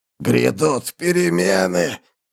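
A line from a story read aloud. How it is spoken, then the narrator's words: Dying hoarse rasp. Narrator (Russian): прохрипел наемник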